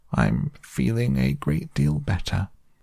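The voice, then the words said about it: Feeble, weak character voice. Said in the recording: “said Toad in a feeble voice.”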